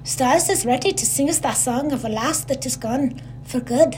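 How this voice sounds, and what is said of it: Put-on Scottish accent. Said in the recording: “I apologize for my Scottish accent for the next bit.”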